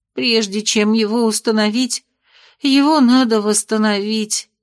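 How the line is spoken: Sighing. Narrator (Russian): вздохнула городская фея

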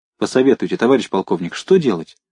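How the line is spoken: Fast, quiet, clearly separated words. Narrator (Russian): Говорил он быстро, негромко, но слова произносил четко, раздельно

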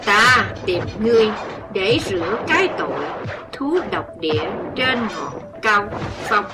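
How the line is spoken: Harsh, gritted voice. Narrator (Vietnamese): Tần Mỹ Nương gằn giọng

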